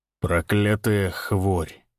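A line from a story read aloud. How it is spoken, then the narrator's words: Said gloomily. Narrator (Russian): мрачно произнес он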